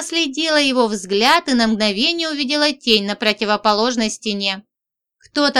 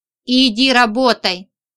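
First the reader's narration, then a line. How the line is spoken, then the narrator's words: Barked. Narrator (Russian): Рявкнул мой начальник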